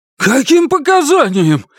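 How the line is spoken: Panicked yelling. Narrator (Russian): в панике вопит Монкберг

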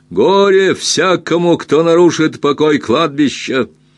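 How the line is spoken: Loud shout into darkness. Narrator (Russian): отец Эйлиф громко крикнул в темноту

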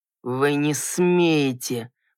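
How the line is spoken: Hissed. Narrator (Russian): прошипел Грахам

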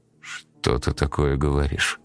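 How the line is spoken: Confused mumble. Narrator (Russian): промямлил вконец растерявшийся Стас

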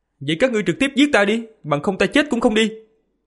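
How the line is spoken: Loud shout. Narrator (Vietnamese): Một tên kỵ sĩ lớn tiếng quát

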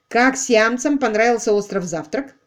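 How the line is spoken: Plain question. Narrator (Russian): спросил Дуайт

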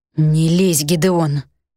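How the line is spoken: Hiss. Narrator (Russian): прошипел Арий

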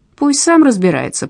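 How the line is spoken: Grumbled mutter. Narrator (Russian): пробурчал он

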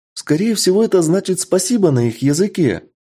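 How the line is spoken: Joyful. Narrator (Russian): радостно произносит леди Винтер

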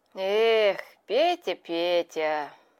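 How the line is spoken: Sighing. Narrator (Russian): вздохнул колпак

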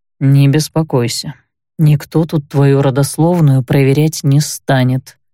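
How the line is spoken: Plain. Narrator (Russian): ответил Кайль

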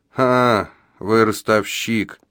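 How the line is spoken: Grumbling. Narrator (Russian): пробурчал могильщик

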